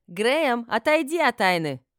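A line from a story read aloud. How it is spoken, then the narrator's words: Shouted. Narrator (Russian): крикнула Гортензия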